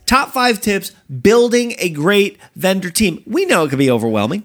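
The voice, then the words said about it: Loud excited yelling delivery. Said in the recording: “I don't know why we're yelling. ... I'm excited. We're excited.”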